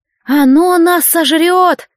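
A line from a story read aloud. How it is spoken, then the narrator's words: Trembling, terrified voice. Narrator (Russian): дрожащим голосом ужаснулся гриб-переросток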